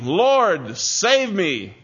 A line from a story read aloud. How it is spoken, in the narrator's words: he cried out saying